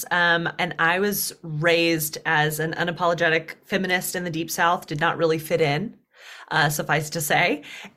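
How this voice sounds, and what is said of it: Southern US accent with twang. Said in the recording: “I am from the deep South. So this is why you hear like a twang in my accent sometimes”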